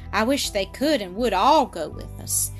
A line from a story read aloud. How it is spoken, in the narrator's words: Mildred said